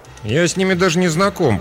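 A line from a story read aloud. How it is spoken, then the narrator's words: Grumbled. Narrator (Russian): проворчал он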